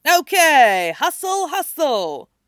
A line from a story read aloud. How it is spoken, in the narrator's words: Finstock shouted